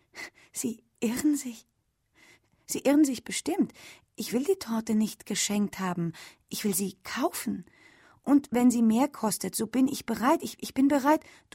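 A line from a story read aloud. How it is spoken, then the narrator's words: Anxious. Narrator (German): sagte Ellen ängstlich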